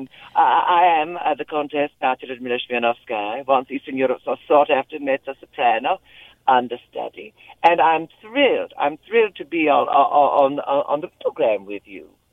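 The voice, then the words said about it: Vague Eastern European accent. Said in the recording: “a Russian lady of indiscriminable accent and unplaceable, vaguely Eastern European accent”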